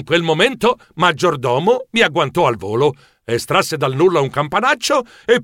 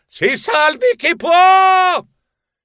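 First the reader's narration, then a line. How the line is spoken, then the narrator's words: Yelling. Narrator (Italian): divenni verde anch'io urlando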